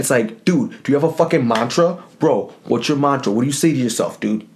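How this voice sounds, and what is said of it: Put-on New Jersey bro accent. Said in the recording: “that stupid New Jersey accent. That's just, like, a fun thing to do. But it's, like, very, like, sideline-y ... it's very, like, huddle talk”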